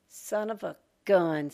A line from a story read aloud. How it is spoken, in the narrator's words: Sonny muttered